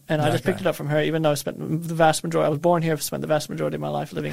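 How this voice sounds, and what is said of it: Australian-tinged accent. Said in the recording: “the accent kind of gives you away ... she's got the accent ... everyone tells me I have an Australian accent”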